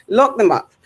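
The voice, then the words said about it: Bajan accent. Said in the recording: “Lock in the Bajan accent, obviously.”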